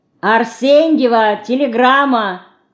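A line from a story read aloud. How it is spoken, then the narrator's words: Postman shouting. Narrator (Russian): крикнул почтальон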